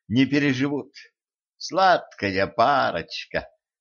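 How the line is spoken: Sarcastic drawl. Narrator (Russian): язвительно протянула Кэтран

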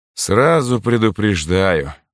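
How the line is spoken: Tired voice. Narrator (Russian): устало произнес таинственный незнакомец

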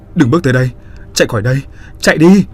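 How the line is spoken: Loud shout. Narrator (Vietnamese): Khánh hét lớn

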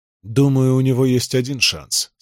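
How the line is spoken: Plain. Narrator (Russian): сказал Арестит

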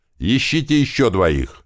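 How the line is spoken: Loud shout, deafened. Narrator (Russian): громко прокричал, опять оглохнув от выстрелов

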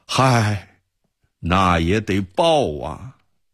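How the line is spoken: Sighing. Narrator (Chinese): 安童感叹着说

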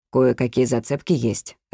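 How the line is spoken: Plain. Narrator (Russian): ответил Буэнди

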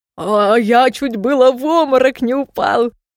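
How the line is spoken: Laughing. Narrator (Russian): смеялся Стром

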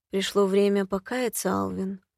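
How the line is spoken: Silky whisper. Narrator (Russian): вкрадчиво прошептала

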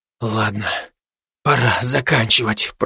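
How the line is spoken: Whisper. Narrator (Russian): прошептал я

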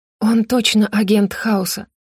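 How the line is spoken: Breathed out. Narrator (Russian): выдохнула Роза

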